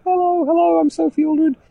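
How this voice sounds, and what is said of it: Imitates another person's voice. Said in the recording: “That's my Sophie Aldred impression.”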